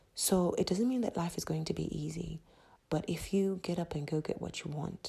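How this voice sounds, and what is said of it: Usual voice. Nothing is said of it.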